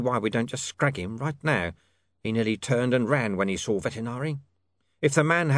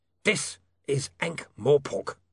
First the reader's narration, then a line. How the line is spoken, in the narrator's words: snapped the lawyer